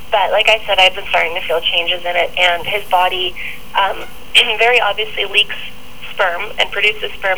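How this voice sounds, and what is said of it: Hoarse, fading voice. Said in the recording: “I'm losing my voice, which is actually from the sort of weird pregnancy thing apparently”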